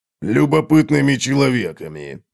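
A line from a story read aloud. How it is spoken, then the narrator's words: Grumbling. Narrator (Russian): проворчал Готрек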